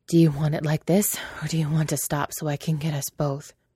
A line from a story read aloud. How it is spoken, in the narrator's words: asked, panting